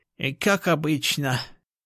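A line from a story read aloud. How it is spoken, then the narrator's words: Small man's sigh. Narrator (Russian): вздохнул уродливый коротышка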